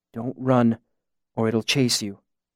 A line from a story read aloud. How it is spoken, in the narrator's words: I said softly